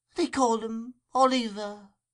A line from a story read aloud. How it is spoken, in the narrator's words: replied the woman, feebly